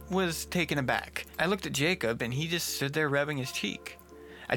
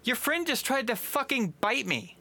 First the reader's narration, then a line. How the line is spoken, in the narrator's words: shouted